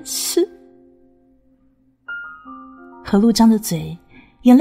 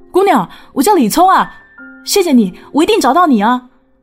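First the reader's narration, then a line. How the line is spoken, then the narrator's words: Shouting while running. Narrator (Chinese): 李聪大老远边跑边吼说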